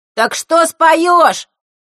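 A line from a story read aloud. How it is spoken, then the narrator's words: Impatient shout from crowd. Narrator (Russian): нетерпеливо выкрикнули из задних рядов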